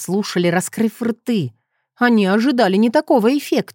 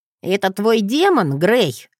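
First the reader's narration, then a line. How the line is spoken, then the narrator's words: Snort. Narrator (Russian): фыркнул Джет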